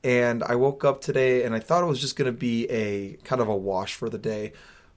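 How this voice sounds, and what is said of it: Tired, worn-out voice. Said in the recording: “Traveling zaps me ... I didn't get home until 3:30 this morning. And it was a little rough. So that's why my voice sounds the way it does.”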